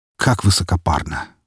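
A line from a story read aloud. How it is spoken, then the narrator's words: Snorting. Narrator (Russian): фыркнул я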